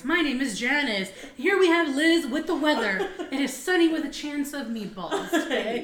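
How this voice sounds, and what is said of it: Morning news anchor voice. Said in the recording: “you always put on like your welcome to the morning news voice.”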